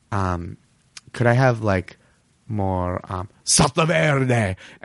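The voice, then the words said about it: Put-on exaggerated foreign accent. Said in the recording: “I won't go as far as like the accent ... Not right, that's not my accent”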